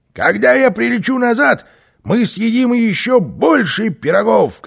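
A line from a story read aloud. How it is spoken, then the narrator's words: Shouted. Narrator (Russian): крикнул Карлсон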